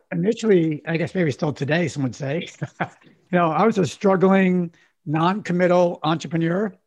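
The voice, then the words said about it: Strained, out-of-sorts voice. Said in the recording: “apologize for my voice being so out of it today”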